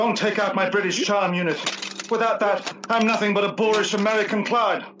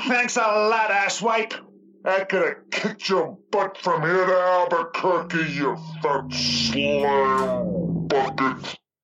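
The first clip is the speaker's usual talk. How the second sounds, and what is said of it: Over-the-top American slob accent. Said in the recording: “American slob accent. It seems a bit over the top.”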